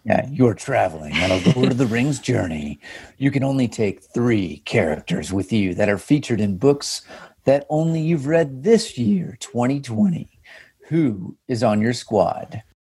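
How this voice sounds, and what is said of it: Dramatic movie trailer narrator voice. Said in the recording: “I'm going to do this in like a movie trailer voice.”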